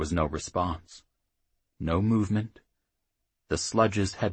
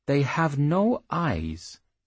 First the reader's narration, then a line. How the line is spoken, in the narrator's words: the wizard said